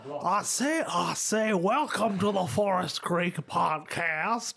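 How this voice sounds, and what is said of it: Weak deep Southern cartoon rooster voice. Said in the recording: “I'll start sounding like Foghorn Leghorn from the Looney Tunes ... I can't really do that accent very well. It's like a deep southerner.”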